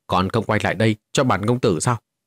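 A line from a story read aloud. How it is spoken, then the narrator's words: Loud shout. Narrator (Vietnamese): Vô Ngân công tử quát lớn một tiếng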